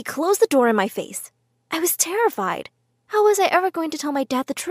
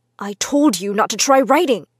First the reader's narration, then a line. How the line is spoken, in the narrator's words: growled